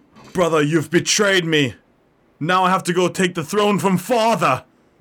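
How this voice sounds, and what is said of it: Imitates another person's voice. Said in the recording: “my best impression”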